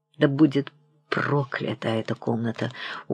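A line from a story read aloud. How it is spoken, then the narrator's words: Gloomy, echoing words. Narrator (Russian): угрюмо произнес он, и эти слова мрачно зазвучали и как будто повторились в затишье большого покоя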